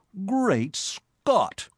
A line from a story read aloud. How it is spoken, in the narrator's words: he cried